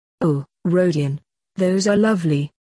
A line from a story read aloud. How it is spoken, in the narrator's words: Sonia exclaimed